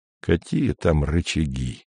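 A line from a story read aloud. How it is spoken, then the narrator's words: Gloomy. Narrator (Russian): мрачно проговорил Андрей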